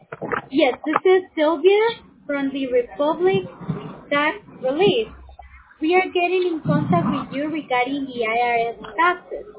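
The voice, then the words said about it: Thick accent. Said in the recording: “Your accent is very thick.”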